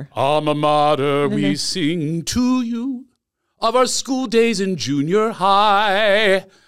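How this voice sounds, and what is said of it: Singing in a British accent. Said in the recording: “I sing in a British voice ... And it'll sound different ... I'm Philadelphia until I sing”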